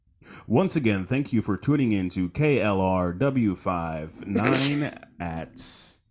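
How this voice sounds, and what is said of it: Newscaster-style radio announcer voice. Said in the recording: “newscaster voice”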